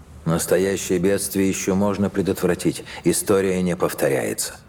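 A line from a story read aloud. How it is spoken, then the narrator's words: Plain. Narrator (Russian): сказал Кадгар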